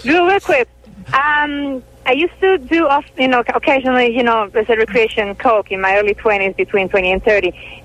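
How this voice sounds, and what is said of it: Italian accent. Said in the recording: “The accent... Well, I'm Italian... She's oh, Italian.”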